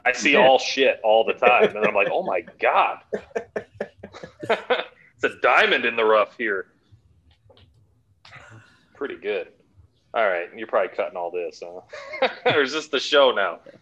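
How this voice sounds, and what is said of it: Thick Chicago accent. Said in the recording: “That accent is thick. ... It's hard to understand that Chicago. ... It sounds like a 400-pound man ordering Italian beef.”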